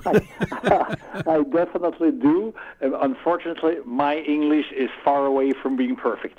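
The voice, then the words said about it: Swiss accent in English. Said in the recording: “You have a Swiss accent.”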